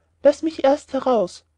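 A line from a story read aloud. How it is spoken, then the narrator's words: Sexton calling from inside box. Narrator (German): rief der Küster innerhalb der Kiste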